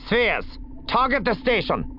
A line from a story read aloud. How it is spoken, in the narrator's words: she snapped